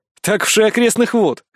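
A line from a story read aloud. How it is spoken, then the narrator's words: Scoffing snort. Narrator (Russian): хмыкнул я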